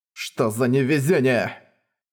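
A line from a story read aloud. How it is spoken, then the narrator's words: Grumbling through teeth. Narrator (Russian): брюзжал он сквозь зубы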